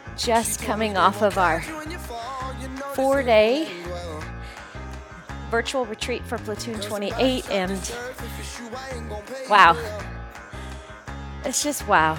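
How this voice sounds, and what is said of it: Sleepy, just-woke-up voice. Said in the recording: “I just woke up. You can hear it in my voice.”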